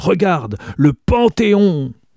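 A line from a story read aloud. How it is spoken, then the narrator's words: Roar. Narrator (French): rugit-il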